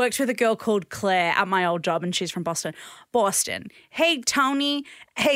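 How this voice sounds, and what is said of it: Usual voice. Nothing is said of it.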